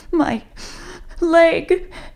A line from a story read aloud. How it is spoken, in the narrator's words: she said between choking sobs